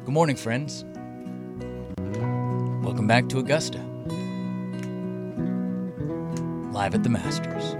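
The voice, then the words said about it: Soft, slow Jim Nance impression. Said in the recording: “You have to do it soft like Jim Nance ... It's just soft and slow. You can't hear ... You need to go a little softer.”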